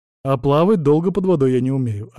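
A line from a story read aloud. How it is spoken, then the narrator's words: Plain. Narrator (Russian): ответил Вильд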